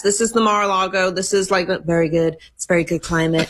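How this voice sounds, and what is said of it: Imitates another person's voice. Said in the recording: “Are you working on a Trump impersonation? ... That was pretty good.”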